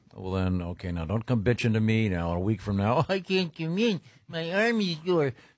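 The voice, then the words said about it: Imitates another person's voice. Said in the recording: “That's a pretty good impression. ... amazing impression. ... Nailed it.”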